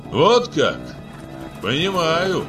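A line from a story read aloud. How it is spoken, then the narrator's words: Shouting after them. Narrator (Russian): крикнул им вслед Абай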